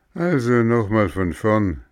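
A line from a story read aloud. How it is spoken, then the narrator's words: Sigh. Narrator (German): seufzte Dominik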